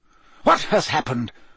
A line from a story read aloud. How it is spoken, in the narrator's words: said Dumbledore sharply